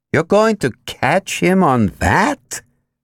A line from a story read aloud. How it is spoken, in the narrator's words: Jim Plank groaned